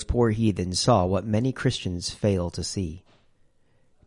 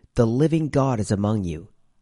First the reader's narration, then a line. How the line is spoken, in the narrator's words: They exclaimed in astonishment